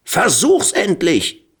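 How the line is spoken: Screaming. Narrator (German): Pulara schrie

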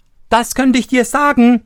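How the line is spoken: Interrupting call. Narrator (German): rief Daumestick dazwischen

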